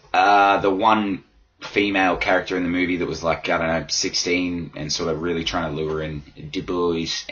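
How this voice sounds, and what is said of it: Hoarse, strained voice. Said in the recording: “my voice is fucking shot. I've been doing a lot of yelling lately”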